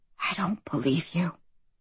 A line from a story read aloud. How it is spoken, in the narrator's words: she whispers